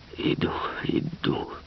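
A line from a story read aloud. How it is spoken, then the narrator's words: Strained, choked voice. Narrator (Russian): отвечал он все тем же сдавленным голосом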